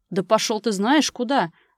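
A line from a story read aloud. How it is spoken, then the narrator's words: Yelling. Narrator (Russian): Заорал он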